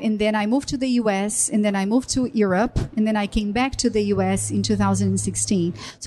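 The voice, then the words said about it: Brazilian accent. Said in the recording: “as you can notice from my accent, I am not American, I'm Brazilian.”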